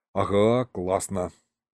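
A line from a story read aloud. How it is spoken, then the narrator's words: Tired. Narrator (Russian): устало сказал я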